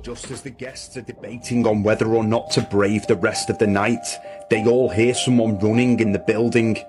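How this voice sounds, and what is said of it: Irish accent. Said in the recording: “I love the Irish accent.”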